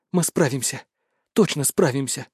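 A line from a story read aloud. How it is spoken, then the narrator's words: Whispering. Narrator (Russian): шептала Рудольф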